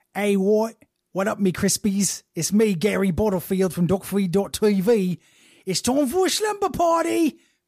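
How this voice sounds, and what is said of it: Fun put-on accent. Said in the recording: “fun, cool accent, please.”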